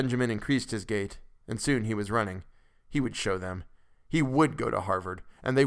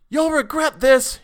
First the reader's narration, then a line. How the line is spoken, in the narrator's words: he shouted